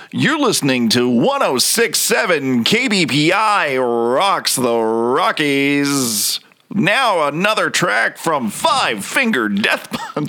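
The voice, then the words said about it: Deep radio DJ announcer voice. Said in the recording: “when I speak like this, I have like a decent radio voice”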